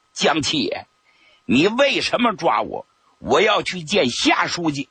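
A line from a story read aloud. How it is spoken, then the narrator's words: Stern demanding. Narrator (Chinese): 刘志群厉声质问他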